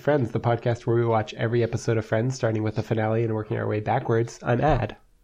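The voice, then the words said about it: Sick, congested-sounding voice. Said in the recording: “I'm still sick. That's why my voice sounds like this.”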